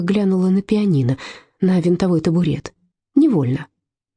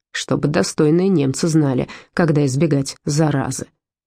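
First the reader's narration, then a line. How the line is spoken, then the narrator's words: Grumble. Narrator (Russian): проворчал Гер Таубер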